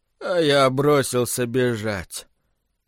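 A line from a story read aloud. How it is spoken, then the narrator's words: Flat lifeless voice. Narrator (Russian): бесцветным, неживым голосом отвечал Биллингс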